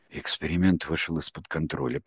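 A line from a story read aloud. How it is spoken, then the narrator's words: Muttered, turned away. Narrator (Russian): пробормотал наставник, отвернувшись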